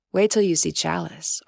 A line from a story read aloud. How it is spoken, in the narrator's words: Ariaku said